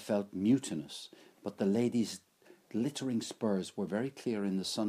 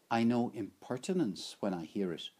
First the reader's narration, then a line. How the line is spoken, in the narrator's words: said the lady calmly